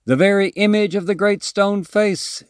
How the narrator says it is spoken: shouted the people

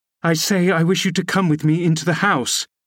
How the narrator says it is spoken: I cried, thinking him deaf, yet highly disgusted at his rudeness

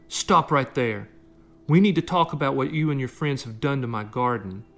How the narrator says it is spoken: shouted

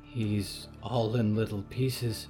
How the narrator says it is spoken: Harrow whispered

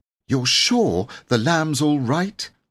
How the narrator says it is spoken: asked Jane anxiously

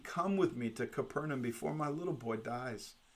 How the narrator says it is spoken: the man continued to plead

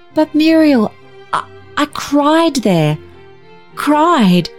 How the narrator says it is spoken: faltered Barbara

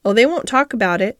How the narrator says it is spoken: said Mary

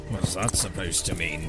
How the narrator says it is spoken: grunted Aldor

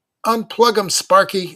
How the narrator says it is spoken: I wittily yelled

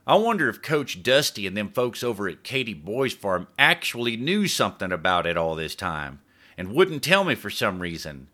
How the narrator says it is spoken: he grumbled

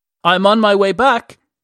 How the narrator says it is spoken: he shouted

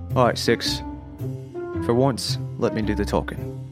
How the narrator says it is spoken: I'm going to say quietly

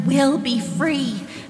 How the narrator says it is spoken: Sam pleaded

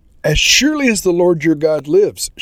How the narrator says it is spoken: she replied

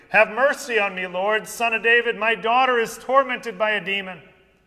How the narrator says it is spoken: a Canaanite woman from the region started shouting

